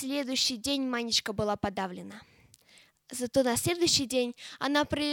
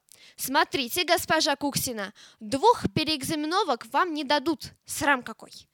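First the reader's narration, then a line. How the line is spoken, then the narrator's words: Stern warning. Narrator (Russian): Классная дама строго предупредила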